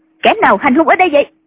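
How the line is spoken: Woman shouting. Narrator (Vietnamese): người phụ nữ quát

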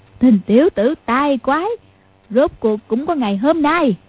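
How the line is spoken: Old woman, laughing loudly. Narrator (Vietnamese): Mụ cười phá lên ha hả, nói

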